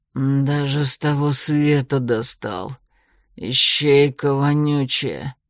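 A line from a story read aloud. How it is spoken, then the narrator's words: Croaking through gritted teeth. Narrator (Russian): Процедил он сквозь зубы каркающим голосом Железнорукова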